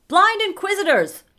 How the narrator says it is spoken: I shouted over Herngun Grunder

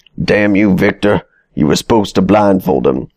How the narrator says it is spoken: spat

